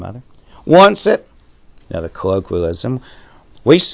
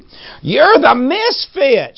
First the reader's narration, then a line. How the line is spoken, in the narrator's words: she shrieked